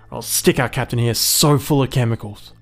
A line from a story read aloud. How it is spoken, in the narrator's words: Clark spat